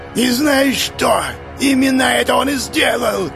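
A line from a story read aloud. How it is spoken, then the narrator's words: Barking. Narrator (Russian): рявкнула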